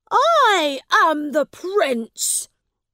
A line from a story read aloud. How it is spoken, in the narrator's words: he said angrily